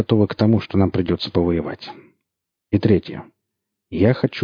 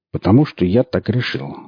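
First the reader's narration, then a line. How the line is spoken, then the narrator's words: Calm. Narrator (Russian): спокойно ответил Борланд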